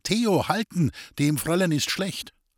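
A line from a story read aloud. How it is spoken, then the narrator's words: Calling out. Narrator (German): Sie rief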